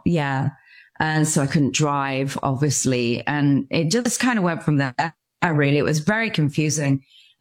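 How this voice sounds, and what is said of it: English accent. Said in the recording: “I'm obviously from Stratford-upon-Avon in England. You can tell by my accent.”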